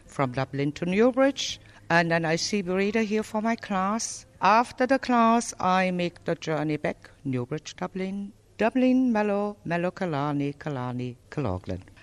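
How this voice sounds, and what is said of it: German accent. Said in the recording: “Where's your accent from? ... I'm from Germany, originally from Berlin.”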